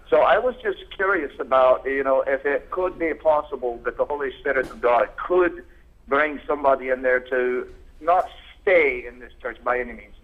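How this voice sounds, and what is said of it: Scottish accent. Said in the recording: “I would fall in love with that accent ... The Scotsman over here.”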